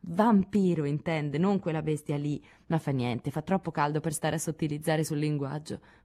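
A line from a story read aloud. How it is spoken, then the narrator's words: Murmur. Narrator (Italian): mormorò Joe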